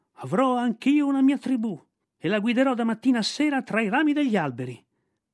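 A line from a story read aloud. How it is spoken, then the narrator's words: Yelled at top of lungs. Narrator (Italian): urlò a squarciagola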